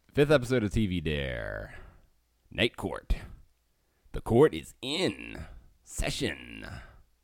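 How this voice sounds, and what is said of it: Radio announcer voice. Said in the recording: “Doing some radio voice there.”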